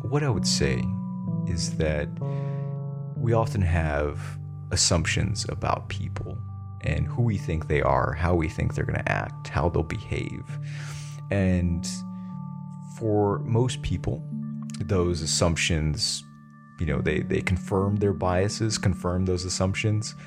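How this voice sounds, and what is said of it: Soft, soothing ASMR-style voice. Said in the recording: “Really soothing, almost like ... ASMR ... style. So I'm going to use my ASMR voice.”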